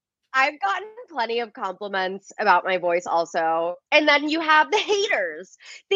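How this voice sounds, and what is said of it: Congested, nasal voice. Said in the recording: “I have a really bad cold. My sinuses, I'm like so stuffed up... I sound so nasally”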